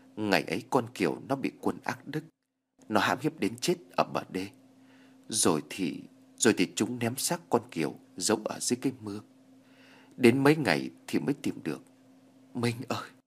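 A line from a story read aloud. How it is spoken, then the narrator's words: Crying. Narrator (Vietnamese): bà thân đã khóc lóc nói ngay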